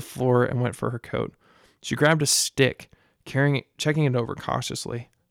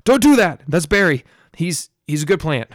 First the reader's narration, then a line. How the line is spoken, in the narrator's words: Lucia exclaimed